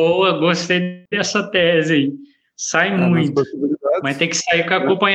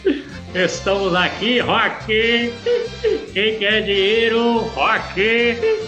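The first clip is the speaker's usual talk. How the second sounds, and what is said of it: Imitates another person's voice. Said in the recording (Portuguese): “você quer fazer uma imitação?”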